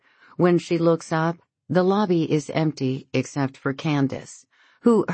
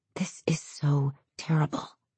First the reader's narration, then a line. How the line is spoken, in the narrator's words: she whispers to Ian